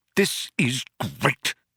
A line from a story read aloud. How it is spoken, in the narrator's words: spluttered Arthur